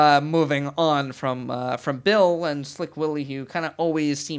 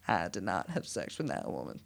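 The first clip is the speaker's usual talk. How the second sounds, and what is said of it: Bill Clinton impression. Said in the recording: “my Bill Clinton impression.”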